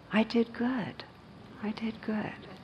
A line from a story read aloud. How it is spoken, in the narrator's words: Dazed, the mugger wandered off saying softly to himself